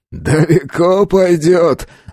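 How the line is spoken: Loud laughing. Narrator (Russian): захохотал Малышев

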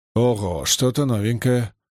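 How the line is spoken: Muttered grumble. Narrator (Russian): буркнул Маркус

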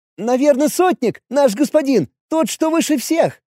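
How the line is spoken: Cheerful child squeaking. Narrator (Russian): продолжал весело пищать ребенок

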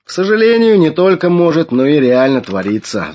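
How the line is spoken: Sighing. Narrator (Russian): вздохнул Флавиан

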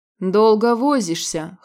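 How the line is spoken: Scoffing grunt. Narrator (Russian): хмыкнул Радмир

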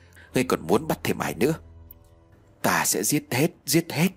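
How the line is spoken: Trembling voice. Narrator (Vietnamese): Người kia run lên lẩy bẩy rồi đáp lại bằng cái giọng run rẩy

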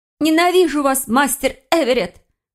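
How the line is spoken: Angry fearful cry. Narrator (Russian): выкрикнула в гневе лиса, борясь со своим страхом

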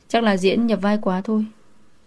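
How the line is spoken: Smiling. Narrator (Vietnamese): Đường bội mỉm cười

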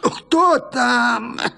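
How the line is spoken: Shouting with a muffled cough. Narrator (Russian): закричала, глухо кашляя

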